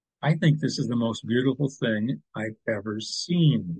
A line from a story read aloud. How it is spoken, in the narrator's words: Linda said softly